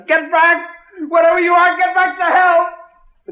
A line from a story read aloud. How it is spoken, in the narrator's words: I lost my head and I screamed at it